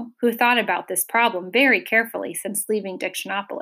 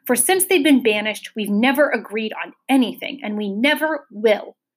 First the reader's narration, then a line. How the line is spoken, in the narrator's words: he thundered again